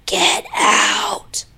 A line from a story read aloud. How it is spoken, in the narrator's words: The voice angrily whispered